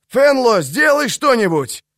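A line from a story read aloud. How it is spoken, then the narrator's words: Shout. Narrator (Russian): кто это крикнул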